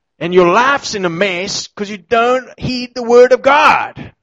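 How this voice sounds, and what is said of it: Put-on American televangelist accent. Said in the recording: “like in a nice American accent there, obviously.”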